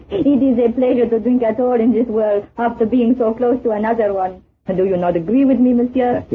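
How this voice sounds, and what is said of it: French accent in English. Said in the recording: “You're French, aren't you? ... Without that accent”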